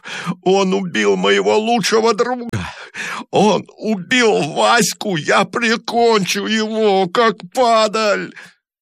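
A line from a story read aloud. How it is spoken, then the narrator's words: Sobbing with real tears. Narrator (Russian): рыдал он самыми настоящими слезами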